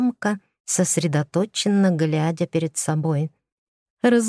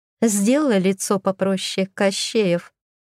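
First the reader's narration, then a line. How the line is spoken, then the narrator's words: Laughing. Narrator (Russian): рассмеялась я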